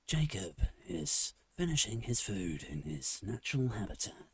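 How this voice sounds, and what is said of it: Nature documentary narrator voice. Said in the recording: “is that nature documentary ... weird voice”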